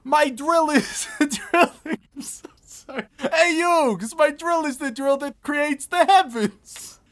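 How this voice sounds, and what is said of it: Joey Wheeler impression, Brooklyn dialect. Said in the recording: “I lose a little bit of Joey every single impression ... saying things in a, like with a Brooklyn dialect, not even an accent”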